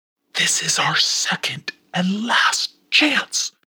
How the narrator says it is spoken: whispered Pimperel

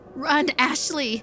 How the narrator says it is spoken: Taylor screamed

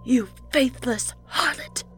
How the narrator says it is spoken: Maureen spat

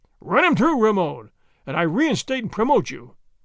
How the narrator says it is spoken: the governor cried

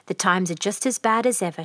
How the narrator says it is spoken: she said

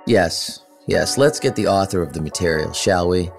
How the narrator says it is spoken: He said sarcastically

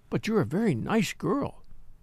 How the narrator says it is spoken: said Miss Viner kindly

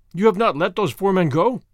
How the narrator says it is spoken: thundered Chauvelin, menacingly

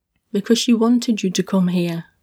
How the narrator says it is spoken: Tilde said

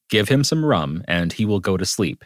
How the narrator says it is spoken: she said

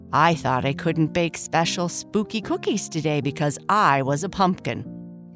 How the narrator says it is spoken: Papa Bear said with a laugh

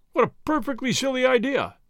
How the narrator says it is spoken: he exclaimed after a time

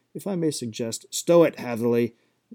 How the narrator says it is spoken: Gareth could not keep himself from shouting

